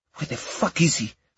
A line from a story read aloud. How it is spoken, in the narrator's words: the woman muttered